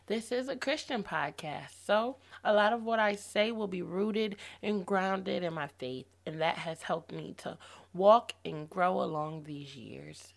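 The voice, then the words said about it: Hoarse, fading voice. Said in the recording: “excuse my voice if I sound a little hoarse ... I am losing my voice”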